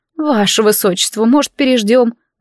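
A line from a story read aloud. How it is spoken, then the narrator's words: Governess, groaning. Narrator (Russian): простонав, предложила гувернантка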